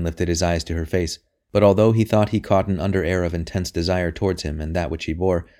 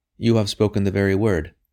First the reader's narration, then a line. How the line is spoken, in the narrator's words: said the queen